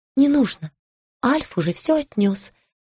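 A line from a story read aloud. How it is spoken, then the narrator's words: Whispered reply. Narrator (Russian): тоже шепотом ответила я ей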